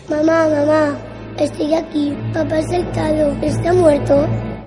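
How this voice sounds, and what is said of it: Child's voice. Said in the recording (Spanish): “voz de niño”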